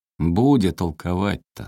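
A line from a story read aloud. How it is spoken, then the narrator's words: Tender and sad. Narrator (Russian): сказал Александр ласково и грустно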